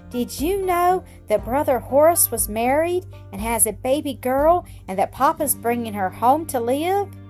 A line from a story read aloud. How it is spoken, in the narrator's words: cried, all speaking at once